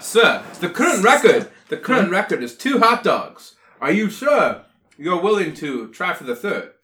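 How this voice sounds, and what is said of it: Put-on accent. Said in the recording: “What accent is that?”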